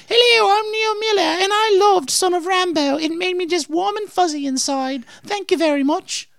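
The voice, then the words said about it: Put-on British woman's voice. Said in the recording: “you have to do it in a British accent ... I'll review it for Neil as a British woman”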